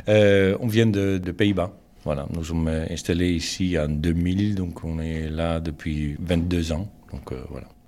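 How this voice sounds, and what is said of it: Dutch-accented French. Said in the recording (French): “votre joli petit accent ?”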